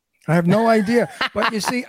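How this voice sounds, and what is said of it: New York accent. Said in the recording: “I have a New York accent, which you hear. And people say to me, oh, you have such a New York accent.”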